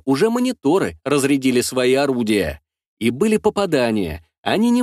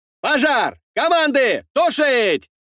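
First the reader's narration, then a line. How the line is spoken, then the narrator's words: Crowd shouting. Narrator (Russian): кричали вокруг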